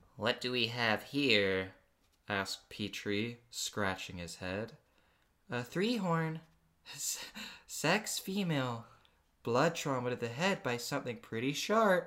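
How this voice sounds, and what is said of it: Cartoon character voice. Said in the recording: “doing a Petrie voice”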